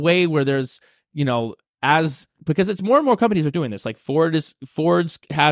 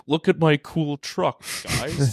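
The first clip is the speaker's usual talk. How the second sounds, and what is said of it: Elon Musk impression. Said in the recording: “Great Elon impression.”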